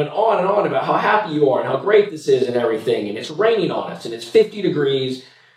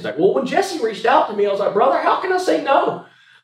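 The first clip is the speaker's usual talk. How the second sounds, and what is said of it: Put-on southern American accent. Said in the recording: “he's got a very southern accent.”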